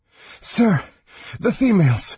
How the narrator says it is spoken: The Draconian gasped for breath

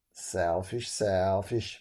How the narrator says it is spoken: muttered Iron Staff

